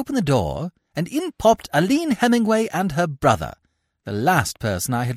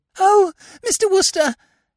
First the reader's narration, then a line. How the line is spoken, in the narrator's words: said the girl in a gasping sort of way